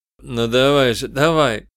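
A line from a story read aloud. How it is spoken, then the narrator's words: Hoarse coaxing. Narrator (Russian): увещевал сиплым голосом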